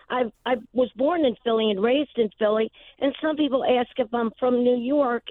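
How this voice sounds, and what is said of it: Philadelphia accent, young-sounding voice. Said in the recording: “Some people say it sounds like I have a Philly accent... I was told I sounded like Kathy Bates, and my voice sounds very young”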